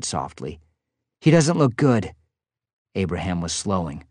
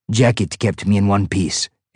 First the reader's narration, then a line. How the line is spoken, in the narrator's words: Abraham said with a grunt